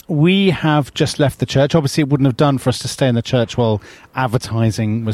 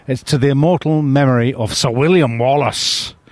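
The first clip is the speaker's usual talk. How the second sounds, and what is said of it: Scottish accent, Mel Gibson style. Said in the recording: “That was a very good Scottish accent. ... That was fantastic. ... that was basically Mel Gibson's Scottish accent.”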